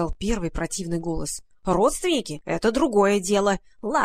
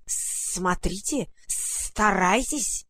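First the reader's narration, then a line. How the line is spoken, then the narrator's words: Hissing. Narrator (Russian): прошипел второй голос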